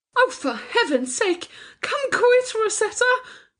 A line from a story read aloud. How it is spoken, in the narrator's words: gasped Charlotte